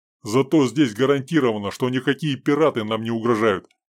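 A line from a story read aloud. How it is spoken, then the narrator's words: Grim joke. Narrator (Russian): мрачно пошутил Сергей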